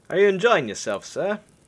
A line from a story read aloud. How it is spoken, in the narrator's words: Lexar said with a chuckle